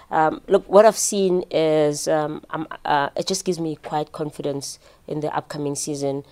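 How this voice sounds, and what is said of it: South African accent. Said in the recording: “despite the South African accent.”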